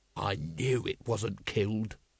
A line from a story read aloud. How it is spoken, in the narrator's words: growled Vimes